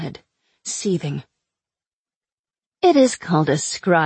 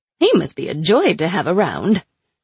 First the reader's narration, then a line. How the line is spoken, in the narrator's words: Ana said cheerfully